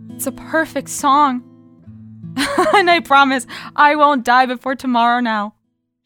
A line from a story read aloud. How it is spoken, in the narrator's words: added, laughing